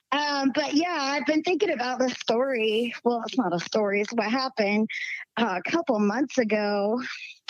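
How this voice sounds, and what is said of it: Slight Southern twang. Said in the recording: “I still got a little southern twang in my voice.”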